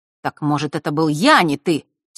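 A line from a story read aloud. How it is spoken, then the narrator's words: Angry outburst. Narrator (Russian): сердито вырвалось у Фэша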